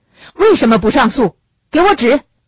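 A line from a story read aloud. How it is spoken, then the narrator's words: Loud answer. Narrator (Chinese): 齐耀全大声地回答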